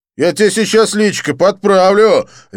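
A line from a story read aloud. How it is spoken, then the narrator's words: Barked threat. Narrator (Russian): рявкнул блондин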